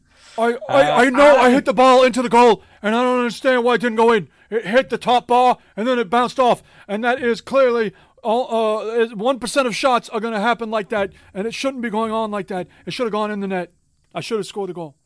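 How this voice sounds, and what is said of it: Imitates another person's voice. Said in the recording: “my Bernie Sanders impersonation”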